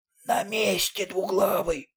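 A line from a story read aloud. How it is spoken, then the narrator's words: Hoarse whisper. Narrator (Russian): хриплым шепотом произнес четвертый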